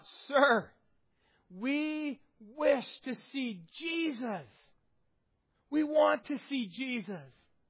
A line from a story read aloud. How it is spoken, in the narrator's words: some Greeks, Gentiles, came to Philip and they cried out